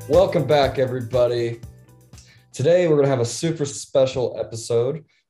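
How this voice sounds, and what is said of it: Slightly sick-sounding voice. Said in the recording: “I was pretty sick, so you could probably still hear it in my voice a little bit”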